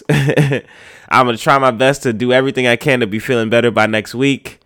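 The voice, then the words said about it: Sick, rough-sounding voice. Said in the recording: “in my terrible voice ... This is my flu game now ... with a bad voice”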